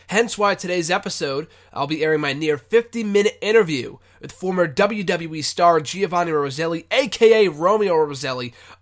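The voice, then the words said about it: Congested, slightly sick-sounding voice. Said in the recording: “I apologize if I sound a bit congested. I've been sick for the last couple of days.”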